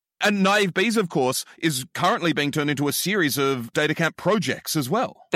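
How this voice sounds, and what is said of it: Australian accent. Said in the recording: “with your accent, I wasn't even sure if you were saying bees or bays. So it works even better in Australian.”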